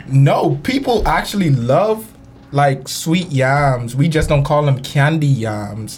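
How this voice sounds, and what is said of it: Bahamian accent. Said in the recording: “So if you had an accent, don't be alarmed. I'm from the land of sun, sand, and sea, beautiful Nassau, Bahamas.”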